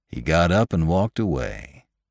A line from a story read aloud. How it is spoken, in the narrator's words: how calmly those two men in the dream had said